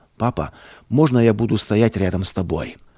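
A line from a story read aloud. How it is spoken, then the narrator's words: Quiet child's question. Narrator (Russian): Павлик тихо спросил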